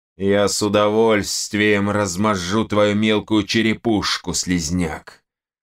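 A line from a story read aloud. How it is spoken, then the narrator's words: Deep bass. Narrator (Russian): пробасил один из латников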